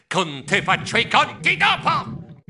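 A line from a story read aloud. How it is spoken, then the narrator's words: Shouted. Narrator (Italian): gridai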